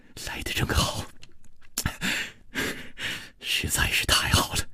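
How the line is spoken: Gentle soft voice. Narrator (Chinese): 楚留香柔声说

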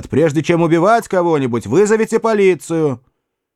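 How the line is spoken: Shouting after someone. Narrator (Russian): Я крикнул вслед

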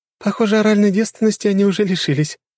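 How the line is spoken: Giggling. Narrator (Russian): хихикала Лиза

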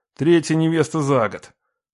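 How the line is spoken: Grumbling. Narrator (Russian): проворчал я

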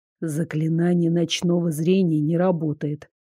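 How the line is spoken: Quiet complaint. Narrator (Russian): негромко пожаловался он

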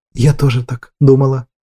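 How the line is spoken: Quiet reply. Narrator (Russian): тихо отозвалась Гладис

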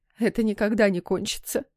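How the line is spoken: Sobbing mutter, then moan. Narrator (Russian): всхлипнув, пробормотала мама и простонала

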